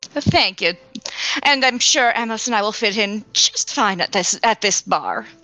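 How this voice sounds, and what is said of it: Usual voice. Nothing is said of it.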